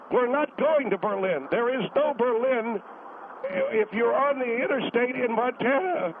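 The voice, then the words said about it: Yelling, strained voice. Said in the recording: “God, I'm losing my voice. ... Well, then quit yelling, sir.”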